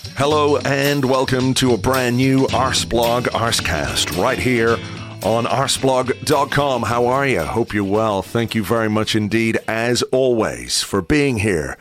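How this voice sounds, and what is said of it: Voice still recovering, not full strength. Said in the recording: “As you can hear, my voice is on the mend, improving. Not 100%, but certainly a lot better than it was on Monday morning”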